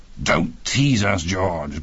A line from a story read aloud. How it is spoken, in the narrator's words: growled Peter Andrews